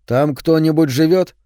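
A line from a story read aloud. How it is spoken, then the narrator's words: Plain. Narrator (Russian): спросил коротышка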